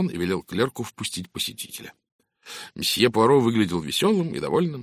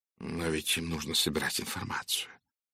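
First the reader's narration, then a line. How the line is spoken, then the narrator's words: Soft, gentle. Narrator (Russian): мягко произнес Пуаро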